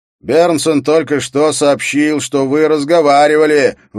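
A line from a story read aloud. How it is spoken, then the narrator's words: Shouted out. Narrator (Russian): выкрикнул Скарре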